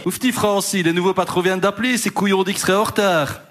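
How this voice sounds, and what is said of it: Attempted Liège Belgian French accent. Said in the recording (French): “accent de Liège ... je ne sais pas faire l'accent liégeois ... C'est entre Liège et Bruxelles ... t'as pas l'accent”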